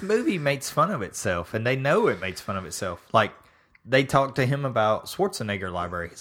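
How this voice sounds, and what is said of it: Usual voice. Nothing is said of it.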